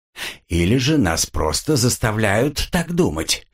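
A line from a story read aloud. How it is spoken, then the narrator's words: Snorting reply. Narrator (Russian): фыркнул в ответ лорд Меллок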